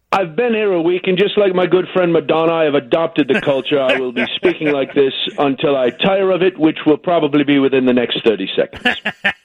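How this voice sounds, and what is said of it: Put-on British accent. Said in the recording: “You've already got the accent.”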